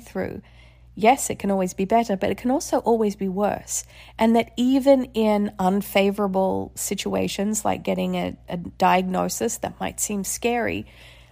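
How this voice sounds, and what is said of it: Slightly congested voice. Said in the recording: “You can probably still hear in my voice that I'm still a little bit congested”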